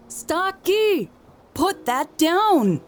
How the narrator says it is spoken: called out

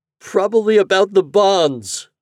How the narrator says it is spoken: Mariel whimpered

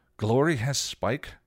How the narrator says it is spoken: Buffy gasped

